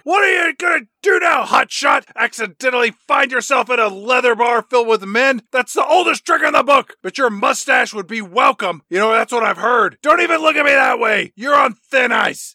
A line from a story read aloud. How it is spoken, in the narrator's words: the chief just screams at Tom Selleck